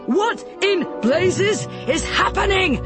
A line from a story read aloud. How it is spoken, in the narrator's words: Commander Spiffs yelled